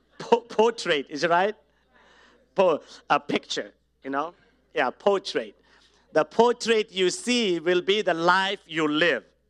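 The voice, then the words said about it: Indian-accented English. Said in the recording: “my English is still Indian accent”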